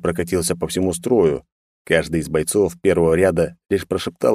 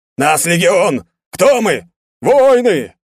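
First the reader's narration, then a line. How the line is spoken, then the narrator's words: Automatic barked chant. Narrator (Russian): гаркнули на автомате бойцы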